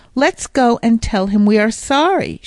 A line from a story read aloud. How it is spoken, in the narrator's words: said